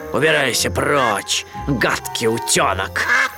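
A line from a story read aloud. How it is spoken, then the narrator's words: Growling. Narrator (Russian): Рыкнул он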